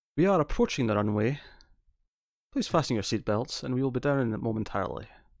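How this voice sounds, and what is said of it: Mild Scottish accent. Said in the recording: “I'm clearly got a very Scottish accent, but I don't have a very strong, specific Scottish dialect ... Yours isn't actually that strong an accent”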